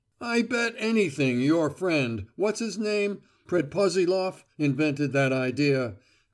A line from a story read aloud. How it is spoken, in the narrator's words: cried Velchaninoff